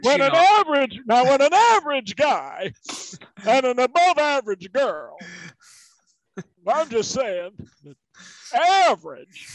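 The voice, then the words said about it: Don Knotts impression. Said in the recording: “That was an amazing impression ... That was a great Don Knotts.”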